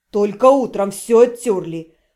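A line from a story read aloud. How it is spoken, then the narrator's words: Grumbling. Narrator (Russian): пробурчал он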